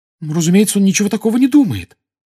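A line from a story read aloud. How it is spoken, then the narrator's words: Agitated exclamation. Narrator (Russian): с волнением воскликнула Гермиона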